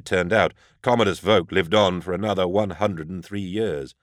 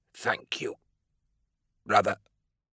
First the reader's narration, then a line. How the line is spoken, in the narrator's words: rasped